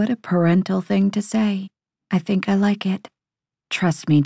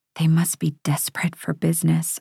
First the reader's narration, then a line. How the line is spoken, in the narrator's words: I whisper